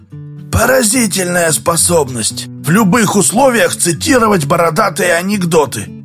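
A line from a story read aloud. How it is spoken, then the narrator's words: Spoken angrily. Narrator (Russian): злобно проговорил Дауга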